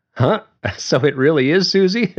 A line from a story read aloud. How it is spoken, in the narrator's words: the girl laughed